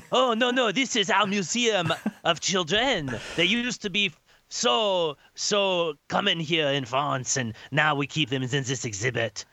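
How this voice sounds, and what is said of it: Vague continental European put-on accent. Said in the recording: “Is that a Russian accent? Is that Italian? ... It is moving all through continental Europe.”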